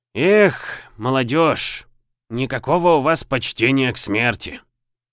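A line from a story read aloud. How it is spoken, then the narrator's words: Sighing. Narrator (Russian): вздохнул тот, кого назвали Семёнычем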